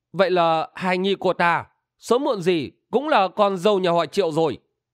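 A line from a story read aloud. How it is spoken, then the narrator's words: Smiling. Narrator (Vietnamese): Băng Điện Hằng Nga Thạch Tịnh Linh bất giác mỉm cười nói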